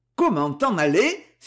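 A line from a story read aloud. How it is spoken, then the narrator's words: Angry exclamation. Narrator (French): s'exclama Van Bergen avec colère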